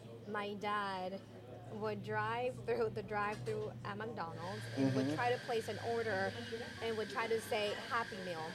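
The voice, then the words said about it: Mexican accent. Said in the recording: “as you can tell from my accent, right? I was born in Mexico”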